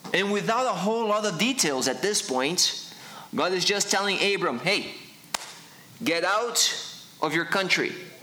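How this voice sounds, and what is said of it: Funny foreign accent. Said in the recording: “That's where the funny accent comes from.”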